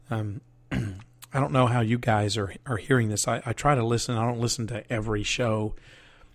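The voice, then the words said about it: Strained, rough voice. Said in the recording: “My voice is still a little strained. I miss my radio voice... I can really tell that my voice is screwed up”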